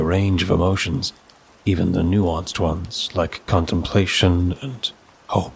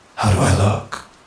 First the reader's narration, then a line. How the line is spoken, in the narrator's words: Nova asked, her voice smooth and inviting